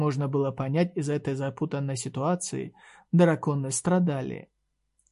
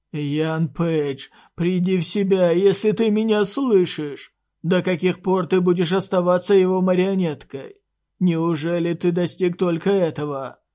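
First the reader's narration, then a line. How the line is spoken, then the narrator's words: Dragon shouting. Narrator (Russian): крикнул черный дракон Атархака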